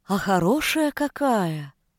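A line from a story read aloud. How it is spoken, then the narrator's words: Knowing drawl. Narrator (Russian): Сознанием дела протянула сотница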